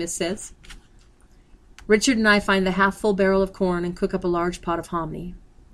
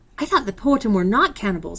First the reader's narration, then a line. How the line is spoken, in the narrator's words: I blurt out